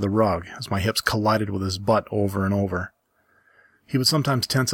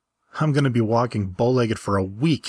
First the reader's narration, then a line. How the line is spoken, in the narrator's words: he exclaimed